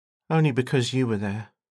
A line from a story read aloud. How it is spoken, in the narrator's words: muttered, still shaken